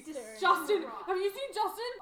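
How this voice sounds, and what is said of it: Shouting. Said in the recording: “you're shouting”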